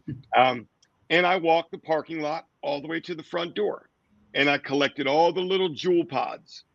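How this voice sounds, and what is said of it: Sore, strained voice. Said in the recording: “my voice is still sore from singing last night”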